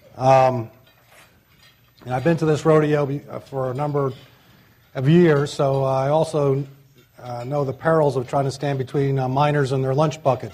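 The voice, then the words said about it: Voice strained from coming illness. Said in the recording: “apologize for my voice ... I'm coming down with something.”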